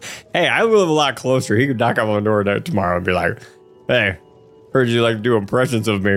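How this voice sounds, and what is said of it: Usual voice. Nothing is said of it.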